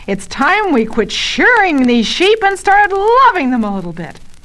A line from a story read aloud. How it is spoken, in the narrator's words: slams his hand down on the desk and yells